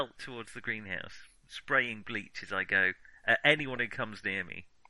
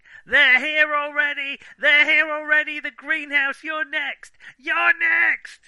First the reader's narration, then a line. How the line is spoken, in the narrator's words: screaming